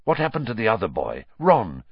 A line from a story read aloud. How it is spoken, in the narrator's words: said Sirius urgently